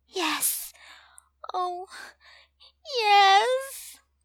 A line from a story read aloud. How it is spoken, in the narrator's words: She moans